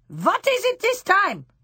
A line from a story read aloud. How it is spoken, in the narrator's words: shouted the Grand High Witch